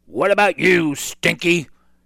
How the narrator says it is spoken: Cap'n Bones roared

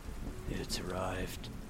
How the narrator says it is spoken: the faint of a whisper of something behind me saying

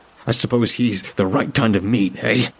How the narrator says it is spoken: spat the words, no longer afraid

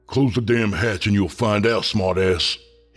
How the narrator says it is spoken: he growled

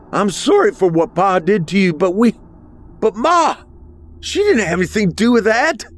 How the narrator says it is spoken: I shouted

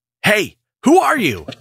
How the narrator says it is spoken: screamed out

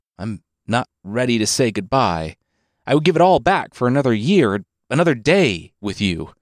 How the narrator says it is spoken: the son cried, his face bursting

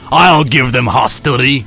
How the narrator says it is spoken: growled Captain Picard

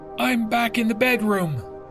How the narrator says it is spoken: she yelled back to me

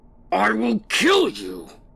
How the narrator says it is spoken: they shouted

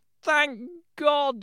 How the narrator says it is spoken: he cried

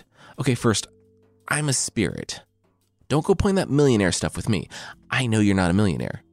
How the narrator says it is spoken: Jofuku said

